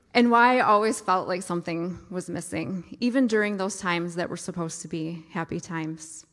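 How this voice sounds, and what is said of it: Emotional voice. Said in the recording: “I'm getting emotional already”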